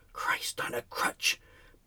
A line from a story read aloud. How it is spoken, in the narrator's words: breathed Mother Teresa